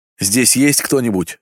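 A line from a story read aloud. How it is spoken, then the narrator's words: Muffled shout through cloth. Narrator (Russian): закричал я через засаленную ткань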